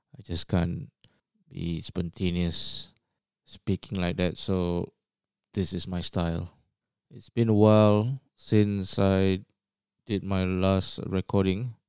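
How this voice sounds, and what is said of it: Low, monotonous voice. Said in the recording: “the tone of my voice is low and monotonous. This is just how I am.”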